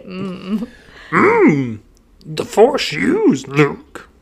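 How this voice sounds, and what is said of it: Imitation of Yoda's voice. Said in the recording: “I feel good about my abilities to mimic things... Like Chewie, Yoda... Yoda. Say something.”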